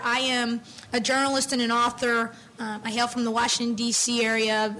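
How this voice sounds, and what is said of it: Hoarse, strained voice. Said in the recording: “I apologize for my voice. I've been dealing with laryngitis on and off for months now.”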